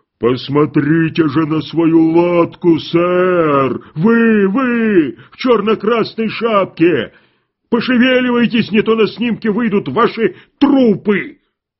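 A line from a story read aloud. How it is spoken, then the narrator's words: Powerful bass roar. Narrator (Russian): чей-то могучий бас проревел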